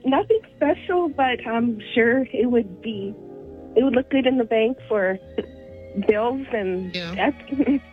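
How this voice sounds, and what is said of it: Speaks very quietly, hushed. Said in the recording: “speaking in hushed tones ... You're speaking very quietly.”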